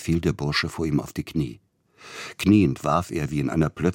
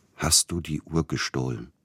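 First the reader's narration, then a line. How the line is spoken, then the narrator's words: Quiet question. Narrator (German): fragte er leise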